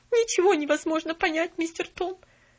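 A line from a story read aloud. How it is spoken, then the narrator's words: Sobbing reply. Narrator (Russian): продолжая всхлипывать, ответила Нэнси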